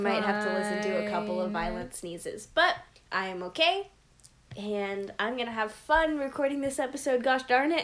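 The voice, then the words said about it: Congested, rough-sounding voice. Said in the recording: “I do have a cold. So I'm sorry that my voice is not very pleasant to listen to”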